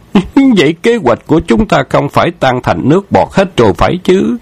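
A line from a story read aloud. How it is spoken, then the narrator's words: Feigned alarmed cry. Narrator (Vietnamese): Khâu Trọng giả bộ thất thanh thốt lên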